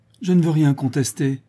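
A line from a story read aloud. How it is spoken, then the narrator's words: Whimpering. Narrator (French): dit en pleurnichant le cousin Henry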